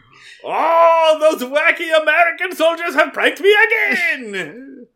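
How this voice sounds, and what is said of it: Exaggerated put-on foreign accent. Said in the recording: “I don't know what fucking accent that was.”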